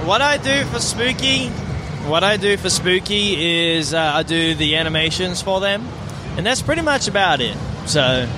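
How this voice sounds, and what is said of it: Australian accent. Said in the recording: “your accent doesn't sound much like a person from Houston ... I'm deep south, buddy. Deep south. Adelaide, South Australia.”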